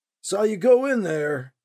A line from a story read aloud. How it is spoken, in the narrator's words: the man shouted